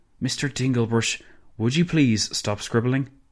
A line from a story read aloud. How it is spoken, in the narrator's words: Imons sighed, as patiently as he could manage